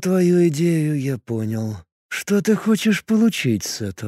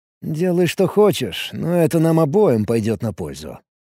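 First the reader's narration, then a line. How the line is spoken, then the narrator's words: Calm. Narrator (Russian): спокойно произнес Алекс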